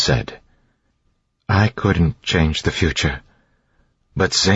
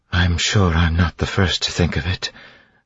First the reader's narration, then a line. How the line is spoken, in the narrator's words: Vin said wearily